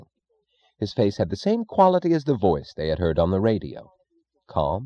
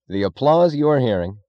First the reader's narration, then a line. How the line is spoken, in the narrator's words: a radio announcer was yelling into a microphone